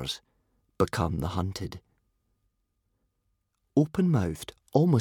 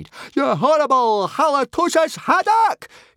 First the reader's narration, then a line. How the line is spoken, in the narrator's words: shrieked Fishlegs in a frenzy